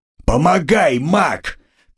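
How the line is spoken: Shouted. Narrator (Russian): крикнул кот

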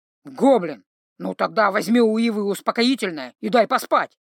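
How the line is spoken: Very irritated, barely restrained. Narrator (Russian): Совсем уж раздраженно, явно с трудом сдерживаясь от более грубых выражений, высказался Грым

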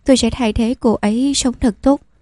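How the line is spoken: Quiet smile after silence. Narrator (Vietnamese): Lăng Nghiên trầm mặc một lúc lâu mới mỉm cười nói

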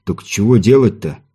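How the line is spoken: Displeased grumble. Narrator (Russian): недовольно буркнул Виктор

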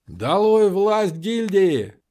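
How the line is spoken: Shout. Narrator (Russian): крикнул кто-то

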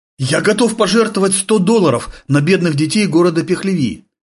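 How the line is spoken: Exclaiming. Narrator (Russian): воскликнул американский профессор

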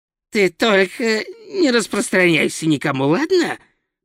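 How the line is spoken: Hiss. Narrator (Russian): прошипел Хью

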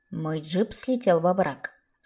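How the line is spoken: Plain. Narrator (Russian): сказал наконец

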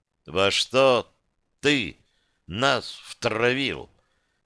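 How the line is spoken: Quiet, deliberately separated words. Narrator (Russian): Тихо и раздельно, даже слишком проговорил

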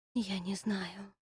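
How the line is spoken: Whispering. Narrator (Russian): прошептала я

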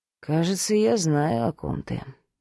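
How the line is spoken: Thoughtful mutter. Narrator (Russian): задумчиво пробормотал Кирилл

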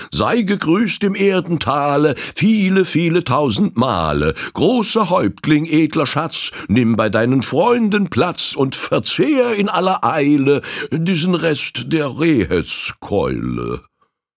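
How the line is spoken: Exclaiming. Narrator (German): rief aus

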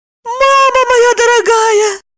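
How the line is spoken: Squeak. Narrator (Russian): пискнула Евдокия

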